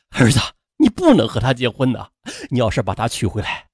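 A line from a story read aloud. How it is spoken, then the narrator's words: Father's tearful pleading. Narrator (Chinese): 父亲段建发几近哭求地说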